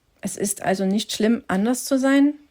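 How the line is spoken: Plain question. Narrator (German): fragte Henry

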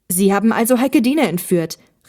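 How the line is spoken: Angry shout. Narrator (German): rief Olli wütend

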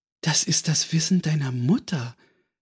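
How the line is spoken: Gentle remark. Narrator (German): bemerkte sanft

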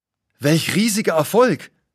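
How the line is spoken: Exclaiming. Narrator (German): ruft aus

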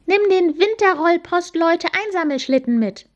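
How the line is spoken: Called out. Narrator (German): rief Amalie

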